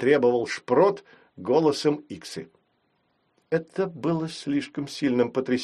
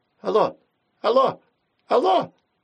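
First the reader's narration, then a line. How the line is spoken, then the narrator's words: Repeated over phone. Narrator (Russian): повторяла какое-то время трубка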